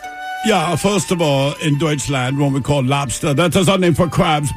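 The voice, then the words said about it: Put-on German accent. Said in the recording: “Let's hear some dirty Germans ... it's the first time as a German I've ever tried the accent there.”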